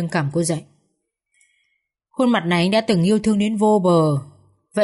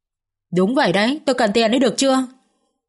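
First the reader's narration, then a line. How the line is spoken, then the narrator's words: Anguished, humiliated scream. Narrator (Vietnamese): Nỗi đau đớn nhục nhã khiến cô không còn giữ được lý trí, liền gào lên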